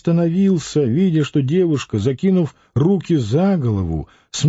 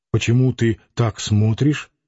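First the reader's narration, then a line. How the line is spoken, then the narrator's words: Muttered. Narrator (Russian): пробормотал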